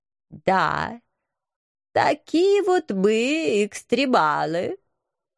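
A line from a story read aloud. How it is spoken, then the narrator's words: Nasal voice. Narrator (Russian): гнусаво поддержал профессор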